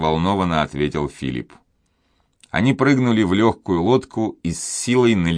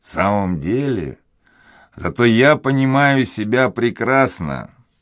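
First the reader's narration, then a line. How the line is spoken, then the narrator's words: Mocking guffaw. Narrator (Russian): Он насмешливо захохотал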